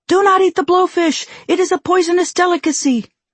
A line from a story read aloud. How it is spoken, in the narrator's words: the sushi chef comes in yelling